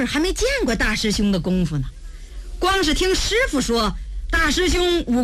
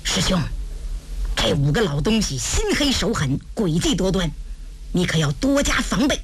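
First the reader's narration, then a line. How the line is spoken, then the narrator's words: Worried, hushed voice. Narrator (Chinese): 他也替大师兄担心呢，压低了声音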